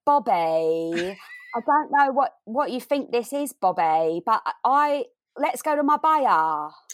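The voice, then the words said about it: Attempted Essex accent. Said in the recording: “Can you do an Essex accent?”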